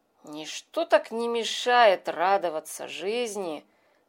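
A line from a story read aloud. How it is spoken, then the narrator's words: Muttering while chewing. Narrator (Russian): бормотал дожевывая утреннюю краюху хлеба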